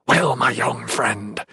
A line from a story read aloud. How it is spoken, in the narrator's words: Taunus hissed